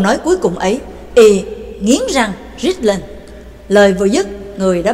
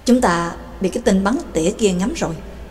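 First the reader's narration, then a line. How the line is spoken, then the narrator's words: Soft woman's voice. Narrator (Vietnamese): Bà Tàng khẽ nói với Trắc Mộc Cường Ba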